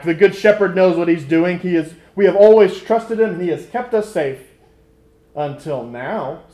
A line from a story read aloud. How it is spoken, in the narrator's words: The elderly ram bristled and shouted back